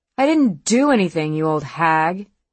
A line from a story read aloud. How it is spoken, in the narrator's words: Katie snapped back